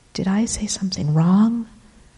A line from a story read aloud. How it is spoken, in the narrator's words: I whisper to Mama